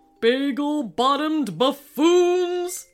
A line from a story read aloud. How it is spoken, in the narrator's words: shouted King Mallard